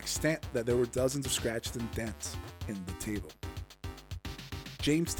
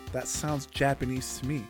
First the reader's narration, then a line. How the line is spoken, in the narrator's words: James replied